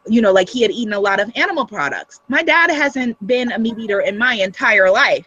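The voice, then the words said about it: Guyanese accent. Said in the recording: “with my mm-hmm. guyanese accent”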